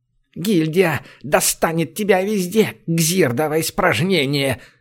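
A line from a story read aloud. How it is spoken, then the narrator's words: Angry hiss. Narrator (Russian): злобно зашипел вор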